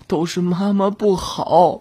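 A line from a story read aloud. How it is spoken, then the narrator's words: Tearful self-blame. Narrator (Chinese): 陈英掉眼泪，一个劲儿的自责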